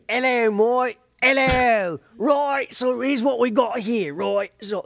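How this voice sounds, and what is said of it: Bad fake British, part Australian. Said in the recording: “Fake British... A fake British. Oh, I can do a great, bad fake British... It's a cross between Australian and Mary Poppins type British.”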